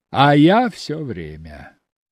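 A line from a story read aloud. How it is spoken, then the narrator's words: Laughing reply. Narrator (Russian): Алексей рассмеялся в ответ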